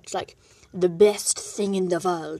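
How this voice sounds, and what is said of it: Put-on German accent. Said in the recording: “Why am I going into a German accent?”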